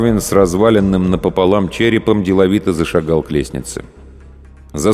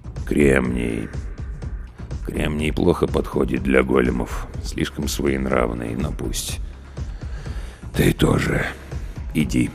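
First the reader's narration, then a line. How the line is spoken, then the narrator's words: Muttering. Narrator (Russian): пробормотал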